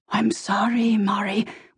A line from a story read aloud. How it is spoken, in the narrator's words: Willie said in a near whisper